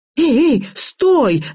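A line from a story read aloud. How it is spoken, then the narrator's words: Yelled. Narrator (Russian): завопила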